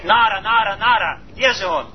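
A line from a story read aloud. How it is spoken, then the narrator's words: Shouting, calling out. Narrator (Russian): Он кричал, он звал меня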